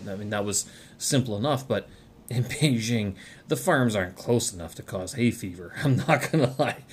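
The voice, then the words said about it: Voice slightly altered by allergies. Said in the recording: “my voice is a little bit different today... allergy”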